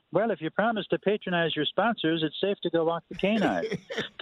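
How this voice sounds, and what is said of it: Impression of broadcaster Skip. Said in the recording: “I'm told I do a pretty good impression of him”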